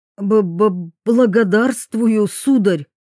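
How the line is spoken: Forced out. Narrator (Russian): выдавил Зинштейн

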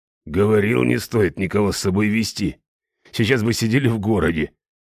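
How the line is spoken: Grumbling mercenary. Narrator (Russian): проворчал кто-то из наемников

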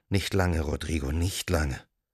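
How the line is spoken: Whispered. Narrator (German): flüsterte er ihm zu

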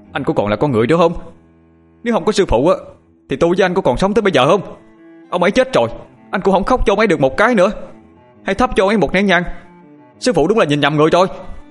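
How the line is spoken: Indignant outburst. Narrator (Vietnamese): thằng Toàn không nhịn được, nó bèn hét lên

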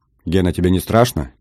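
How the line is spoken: Quiet question. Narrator (Russian): тихо спросила Энн

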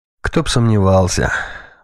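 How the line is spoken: Sighing. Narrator (Russian): вздохнул командующий

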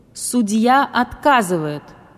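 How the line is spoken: Sudden loud declaration. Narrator (Russian): вдруг громко произнес царь зверей

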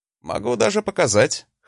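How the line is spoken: Wry grunt. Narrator (Russian): хмыкнул я

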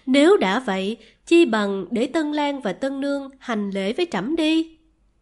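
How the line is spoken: Laughing. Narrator (Vietnamese): Nữ đế ... bật cười

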